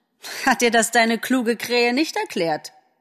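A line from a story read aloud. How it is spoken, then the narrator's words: Mocking. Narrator (German): spottete Frau Nettler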